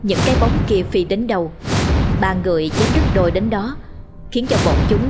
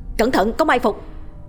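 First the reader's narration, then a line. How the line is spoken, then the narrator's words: Loud shout. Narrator (Vietnamese): Hoàng Kính quát lớn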